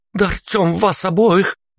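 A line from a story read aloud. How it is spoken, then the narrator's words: Exclamation. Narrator (Russian): воскликнула Алла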